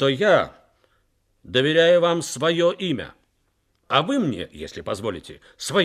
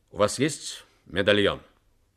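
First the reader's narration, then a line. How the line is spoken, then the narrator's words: Stern question. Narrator (Russian): Джек Харди, так звали американского моряка, строго спросил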